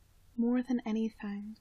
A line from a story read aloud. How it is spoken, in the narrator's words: Sid says, just as softly